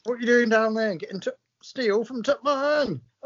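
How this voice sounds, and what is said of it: Exaggerated northern English accent. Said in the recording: “bizarre accents”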